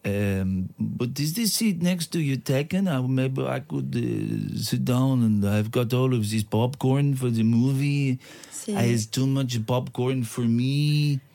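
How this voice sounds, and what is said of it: Put-on French accent. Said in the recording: “c'est quoi cet accent? ... my French accent”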